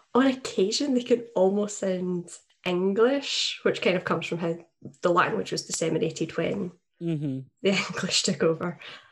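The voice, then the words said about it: Thick Glaswegian Scottish accent. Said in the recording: “mine, I'm Glaswegian, so I... like from the middle belt of Scotland, which the Glaswegian accent is what folk think of when they think of the Scots ... your real thick, like, proper Scots”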